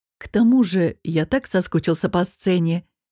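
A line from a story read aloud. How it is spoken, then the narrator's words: Gentle addition. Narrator (Russian): мягко добавил король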